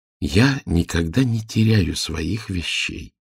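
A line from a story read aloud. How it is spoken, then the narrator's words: Calm, grandmother. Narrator (Russian): спокойно отвечала бабушка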